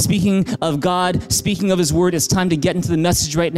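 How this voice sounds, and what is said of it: Usual voice. Nothing is said of it.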